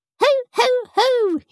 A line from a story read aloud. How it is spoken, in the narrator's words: squeaked